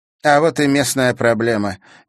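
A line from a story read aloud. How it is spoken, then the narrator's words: Displeased pronouncement. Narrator (Russian): недовольным тоном изрекла Карина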